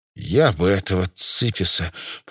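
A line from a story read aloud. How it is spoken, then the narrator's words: Hissing. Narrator (Russian): прошипел Кравцов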